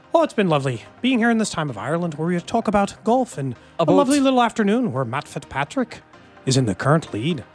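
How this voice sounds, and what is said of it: Mediocre put-on Irish accent. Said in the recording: “working on an Irish accent ... That's my only good accent. And it's mediocre at best. ... Claim to have a good Irish accent.”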